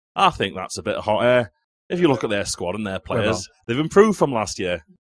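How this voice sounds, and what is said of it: Bad put-on Yorkshire Sheffield accent. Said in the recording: “Should I try and do the accent of this one now? ... The worst Yorkshire accent you've ever heard, by the way, Sheffield accents.”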